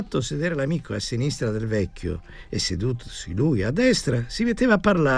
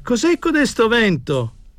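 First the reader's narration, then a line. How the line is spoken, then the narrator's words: Shouted. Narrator (Italian): gridava Tommasini al cameriere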